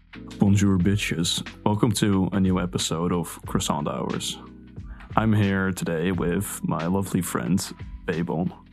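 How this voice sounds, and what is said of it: Put-on narrator voice. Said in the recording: “doing my narration voice”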